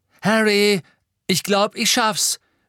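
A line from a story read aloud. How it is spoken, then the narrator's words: Calling out. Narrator (German): rief Seamus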